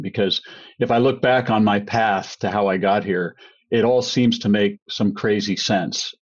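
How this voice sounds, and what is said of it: American accent. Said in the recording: “you can hear by my accent, I'm an American”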